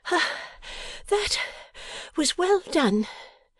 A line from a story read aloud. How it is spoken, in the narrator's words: panted Bella